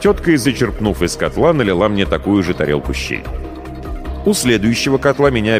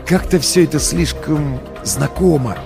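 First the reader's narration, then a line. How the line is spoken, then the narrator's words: Whispered. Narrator (Russian): шепнул я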